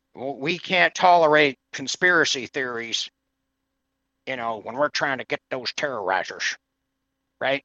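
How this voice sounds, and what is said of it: Bad impression of another person's voice. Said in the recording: “I do a bad impression of Bush”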